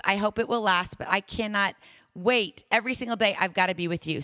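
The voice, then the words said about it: Strained, rough voice. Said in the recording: “my voice is a little crazy, it's because I've been working really hard... So just pardon my voice.”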